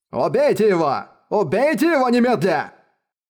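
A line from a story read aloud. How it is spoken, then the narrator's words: Furious roar. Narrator (Russian): взревел он с перекошенным от ярости лицом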